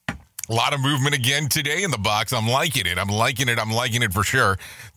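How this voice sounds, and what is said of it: Strained, hoarse voice. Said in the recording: “Wow, I'm losing my voice already.”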